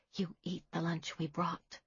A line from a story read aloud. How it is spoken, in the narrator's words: Dorothy whispered